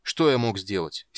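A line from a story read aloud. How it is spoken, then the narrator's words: Angry question. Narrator (Russian): сердито спросил воин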